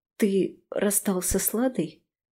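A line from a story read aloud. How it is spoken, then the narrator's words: Trembling question. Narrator (Russian): спрашиваю дрожащим голосом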